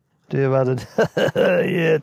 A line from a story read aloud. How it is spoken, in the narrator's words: Tom laughed